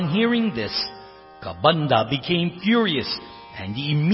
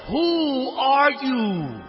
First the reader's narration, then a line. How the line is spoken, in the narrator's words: In an anguished voice, Kabandha called out